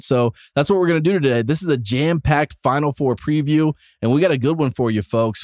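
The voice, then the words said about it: Sick voice, a little off. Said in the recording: “I officially have strep throat. Uh, if you can't tell by my voice being uh, a little bit off right now”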